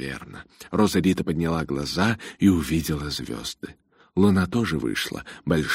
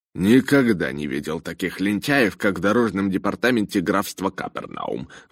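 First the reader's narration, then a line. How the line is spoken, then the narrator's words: Indignant grumble. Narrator (Russian): возмутился Джонатан и проворчал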